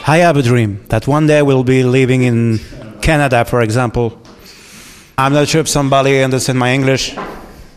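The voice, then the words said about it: English spoken with a foreign accent. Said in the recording (French): “I have some accent also”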